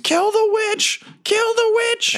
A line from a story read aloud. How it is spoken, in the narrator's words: It screams